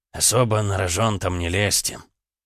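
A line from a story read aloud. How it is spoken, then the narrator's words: Old man's quiet trembling voice. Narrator (Russian): старый генерал, его голос дрогнул, когда он негромко произнес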